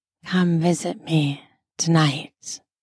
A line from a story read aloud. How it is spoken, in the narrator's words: lowered my voice and said